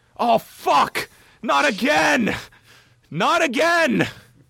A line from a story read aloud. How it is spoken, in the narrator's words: Richards lands, he grabs his left knee and is playing it off that his knee is legitimately fucked by yelling